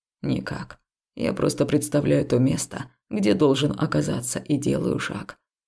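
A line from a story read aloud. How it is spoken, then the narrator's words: Quiet reply. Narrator (Russian): ответил тихо муж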